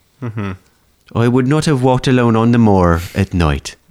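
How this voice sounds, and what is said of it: Failed Welsh accent, sounds Irish. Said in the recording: “And that was kind of Irish too. ... It was a little bit Irish. ... I can't do Welsh. I don't know how to do a Welsh accent.”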